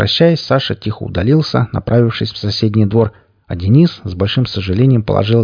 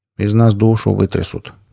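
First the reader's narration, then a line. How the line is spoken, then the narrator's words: Sad mumble. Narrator (Russian): грустно промямлил Александр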